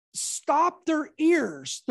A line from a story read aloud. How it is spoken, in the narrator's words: they cried out with a loud voice